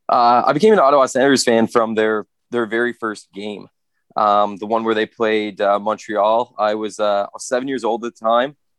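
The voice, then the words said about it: Canadian East Coast accent. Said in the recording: “East Coast buys on the show to not know that accent ain't from Alberta”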